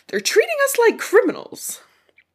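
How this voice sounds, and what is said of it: Capitol accent like Pearl. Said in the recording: “That was a pretty good capital accent... Sounded like Pearl from Steven Universe for a sec.”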